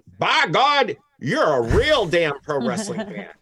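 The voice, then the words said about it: Poor Stone Cold Steve Austin impression. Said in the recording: “terrible Stone Cold impersonation”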